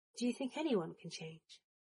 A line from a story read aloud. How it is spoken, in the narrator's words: Potter asked, his voice soft and curious